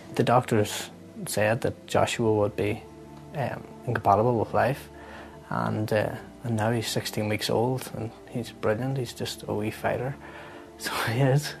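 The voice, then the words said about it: Regional accent. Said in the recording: “Love that accent.”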